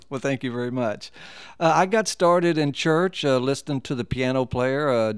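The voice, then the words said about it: Slight Ohio hillbilly-type accent. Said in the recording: “noticed the accent on you. You still have a little... ... I still have that hillbilly type accent a little bit.”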